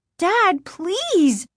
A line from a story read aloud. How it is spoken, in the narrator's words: Margaret cried